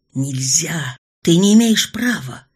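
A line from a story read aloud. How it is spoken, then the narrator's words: Shouting. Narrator (Russian): кричало чувство долга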